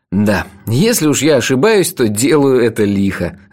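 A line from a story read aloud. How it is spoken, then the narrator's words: Laughing. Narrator (Russian): рассмеялся я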